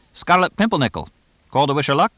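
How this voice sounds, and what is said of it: Fast English accent. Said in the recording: “Frizzlewit sped along in his English accent.”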